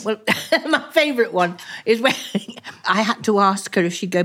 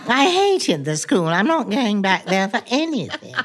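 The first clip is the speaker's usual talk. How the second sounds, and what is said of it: Maggie Smith impression. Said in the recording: “I do all my Maggie Smith impersonations.”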